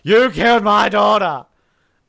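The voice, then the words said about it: Good impression of Ben. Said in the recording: “That was a pretty good Ben impersonation. ... Michael Emerson”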